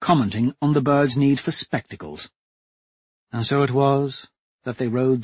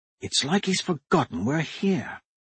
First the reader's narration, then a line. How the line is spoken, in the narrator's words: Hadrian whispered to Dancer